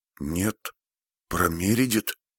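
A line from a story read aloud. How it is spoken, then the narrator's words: Whisper. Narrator (Russian): Теперь уже она говорила шепотом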